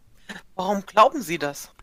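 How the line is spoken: Woman speaking laughingly. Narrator (German): Die Frau lachte und meinte

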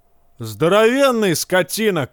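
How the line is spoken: Shout. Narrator (Russian): кричал другой

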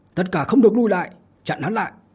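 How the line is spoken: Big leader's hurried shout. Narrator (Vietnamese): tên to con cầm đầu liền vội vàng hét lên

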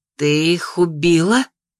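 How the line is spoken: Disbelieving female exhale. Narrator (Russian): Выдохнула она, как будто глазам не поверила

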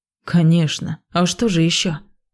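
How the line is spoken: Surprised. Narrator (Russian): Удивился он

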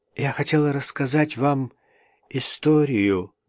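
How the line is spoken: Muttering. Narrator (Russian): пробормотала

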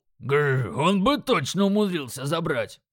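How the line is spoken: Growl. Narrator (Russian): прорычал Крак

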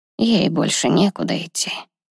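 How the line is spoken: Sigh. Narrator (Russian): вздохнул Аарон

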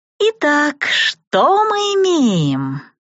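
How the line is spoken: Witch's unctuous voice. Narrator (Russian): Елейным голосом уточнила ведьма

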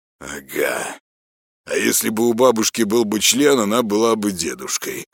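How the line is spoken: Smirking reply. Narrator (Russian): хмыкнул в ответ Казанский

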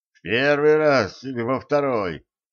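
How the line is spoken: Through gritted teeth. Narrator (Russian): сквозь зубы уточнил Кощей

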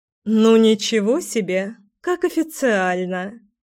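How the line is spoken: Laughing. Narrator (Russian): Рассмеялась тетя Вита

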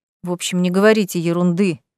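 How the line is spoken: Gruff mutter. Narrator (Russian): буркнул дракон

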